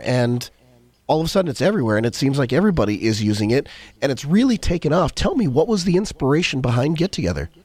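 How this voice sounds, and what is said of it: Slightly crackly, hoarse voice. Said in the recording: “apologize for my voice. It's a little bit crackly. I'm just getting over a bit of a cold.”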